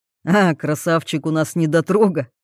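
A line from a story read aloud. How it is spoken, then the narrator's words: Chuckling. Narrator (Russian): хохотнул Марк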